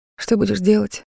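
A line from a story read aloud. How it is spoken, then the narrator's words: Plain. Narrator (Russian): спросил я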